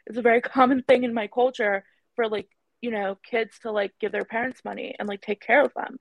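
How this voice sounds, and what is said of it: Speaks with vocal fry. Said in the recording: “I have a vocal fry to prove it”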